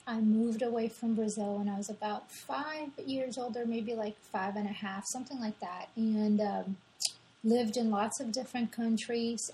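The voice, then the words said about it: Blended French and Brazilian accent. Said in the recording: “my accent, I believe, is a mix of French, Brazilian, and perhaps different things ... I thought it was all Brazilian. It's a blend ... Some people will hear the Portuguese”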